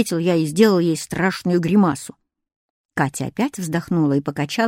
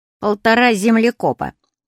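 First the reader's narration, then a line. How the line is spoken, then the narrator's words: Deliberately very rude reply. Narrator (Russian): ответил я нарочно очень грубо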